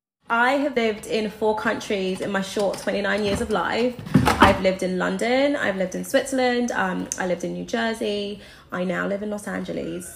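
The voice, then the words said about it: Mixed accent, mostly London English. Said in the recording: “my accent is a mishmash of all the places I've lived, but I'm a London girl at heart ... that's the voice she currently speaks with”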